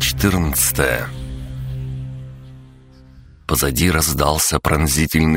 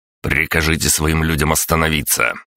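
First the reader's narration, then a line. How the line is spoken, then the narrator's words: Barked. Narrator (Russian): рявкнул я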